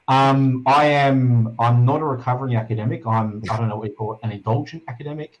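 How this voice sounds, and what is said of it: Australian accent. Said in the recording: “As you might be able to tell from my accent, I'm an Australian.”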